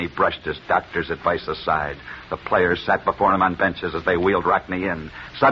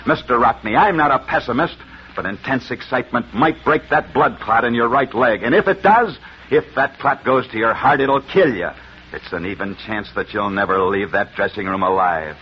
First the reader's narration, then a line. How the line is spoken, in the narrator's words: Angrily, the doctor said